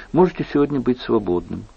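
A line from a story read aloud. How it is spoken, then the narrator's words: Tender, gentle. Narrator (Russian): ласково добавила Екатерина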